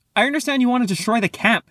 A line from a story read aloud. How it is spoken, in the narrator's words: she yelled